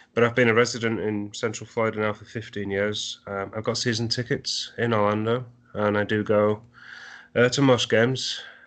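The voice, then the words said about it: English accent. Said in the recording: “I can tell by the accent I'm from England initially.”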